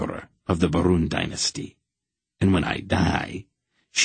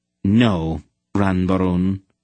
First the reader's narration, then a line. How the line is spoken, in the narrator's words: Aunt Paul said flatly